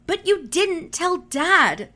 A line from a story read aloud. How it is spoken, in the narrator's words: Cherokee yelped